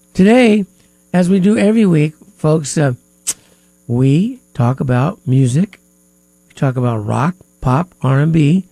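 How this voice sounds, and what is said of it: Stuffy, congested nasal voice. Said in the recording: “I'm sorry if I sound a little stuffy today. My nose is a little stuffy, so I might sound a little stuffy today”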